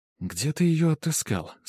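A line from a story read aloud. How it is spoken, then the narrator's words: Quiet question. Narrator (Russian): спросила меня Франческа тихо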